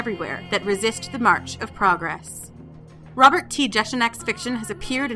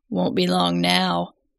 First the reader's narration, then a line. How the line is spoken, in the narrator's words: he says, his voice a gravelly tenor